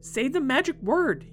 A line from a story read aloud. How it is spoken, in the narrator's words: barked